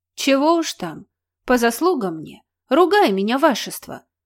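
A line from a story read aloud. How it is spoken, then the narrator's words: Contrite mutter. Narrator (Russian): сокрушенно пробормотала Мося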